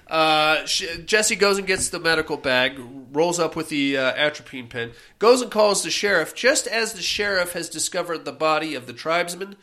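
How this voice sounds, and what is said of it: Congested, stuffy nasal voice. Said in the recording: “she sounds a lot in the movie like I do right now ... my own mucus notwithstanding”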